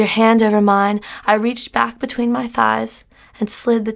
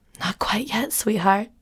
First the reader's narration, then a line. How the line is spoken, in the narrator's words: breathed into my ear